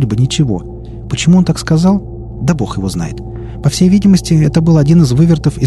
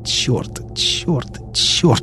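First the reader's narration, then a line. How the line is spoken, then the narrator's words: Hissed through clenched teeth. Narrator (Russian): шипел он сквозь стиснутые зубы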